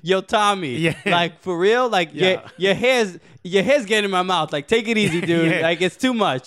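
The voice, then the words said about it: Put-on Bronx accent. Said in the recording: “we're going to do it in the accent of every borough ... Yeah, yeah, and the Bronx.”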